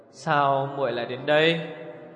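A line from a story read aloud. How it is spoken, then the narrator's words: Smiling. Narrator (Vietnamese): Ngọc Tự Hàn mỉm cười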